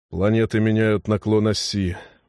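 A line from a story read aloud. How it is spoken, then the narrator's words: Breathed out. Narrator (Russian): выдохнул он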